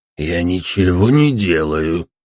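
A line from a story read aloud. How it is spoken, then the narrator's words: Hoarse rasp. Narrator (Russian): прохрипел бродяга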